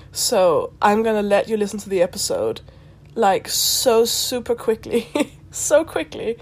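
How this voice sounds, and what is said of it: Sick voice with a cold. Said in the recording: “I'm very, very sick. I have a cold ... my throat hurts”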